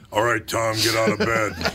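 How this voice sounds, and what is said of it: Imitates another person's voice. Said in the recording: “a really good impression of my mother ... She had the pipes on her, man.”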